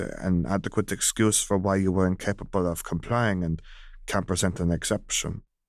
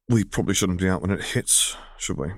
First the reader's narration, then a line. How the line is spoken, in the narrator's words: He muttered, shivering